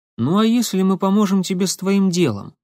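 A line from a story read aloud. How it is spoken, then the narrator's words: Plain question. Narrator (Russian): спросил Никита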